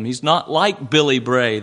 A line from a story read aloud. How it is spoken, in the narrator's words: they said